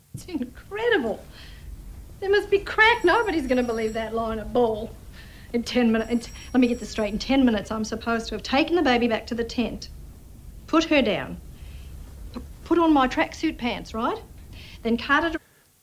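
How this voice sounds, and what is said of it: Meryl Streep's imperfect Australian accent. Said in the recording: “This is her attempt at an Australian accent ... it's not perfect ... It's pretty close ... It slips into New Zealand-y a little bit every now and then”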